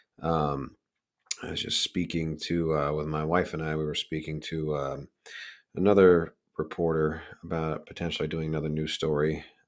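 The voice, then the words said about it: Strained voice, not fully recovered. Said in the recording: “my throat was killing me. I lost my voice. I probably don't even fully have it back now.”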